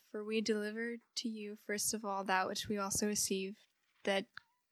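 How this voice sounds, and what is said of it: Put-on British accent. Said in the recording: “Do a British accent.”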